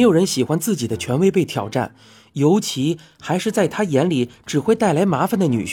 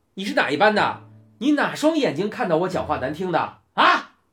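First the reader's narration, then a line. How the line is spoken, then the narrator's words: Fierce shout. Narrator (Chinese): 教官凶恶的喊了回去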